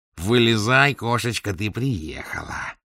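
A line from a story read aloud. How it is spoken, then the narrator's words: Nasal singsong. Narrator (Russian): третий гнусаво пропел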